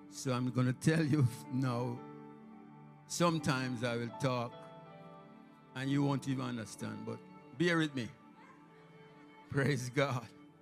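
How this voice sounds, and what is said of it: Strong Jamaican accent. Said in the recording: “Don't mind my accent. It will come out eventually. In my preaching, you can hear the strong Jamaican accent.”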